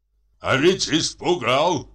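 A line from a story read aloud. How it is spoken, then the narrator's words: Man laughing with delight. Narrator (Russian): проговорил мужчина и захохотал от удовольствия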